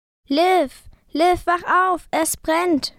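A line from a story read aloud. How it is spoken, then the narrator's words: Shouting. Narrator (German): schrie ich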